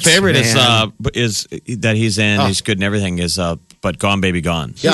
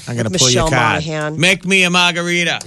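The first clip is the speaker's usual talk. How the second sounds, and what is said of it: Put-on Boston accent. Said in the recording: “He's doing his Boston accent.”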